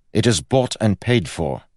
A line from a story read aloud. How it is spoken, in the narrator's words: said Kel sternly